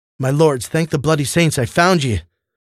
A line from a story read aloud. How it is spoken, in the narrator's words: man barked, nearly out of breath, greatly troubled